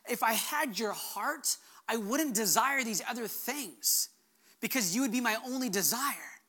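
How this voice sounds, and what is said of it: Choked-up, emotional voice. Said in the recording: “getting choked up ... where I got choked up”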